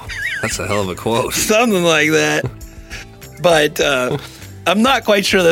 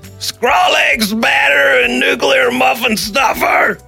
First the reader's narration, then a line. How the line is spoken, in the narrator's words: half awake and out the front door and yelled, and I quote, she said